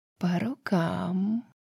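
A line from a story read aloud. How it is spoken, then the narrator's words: Silky insinuating reply, snake queen. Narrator (Russian): вкрадчиво ответила королева змей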